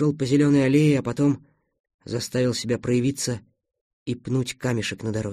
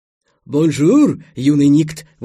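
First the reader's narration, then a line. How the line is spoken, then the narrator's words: Exclaimed. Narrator (Russian): воскликнул поэт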